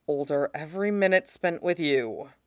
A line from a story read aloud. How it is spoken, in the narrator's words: Mustang mutters, clearly letting it go with conscious effort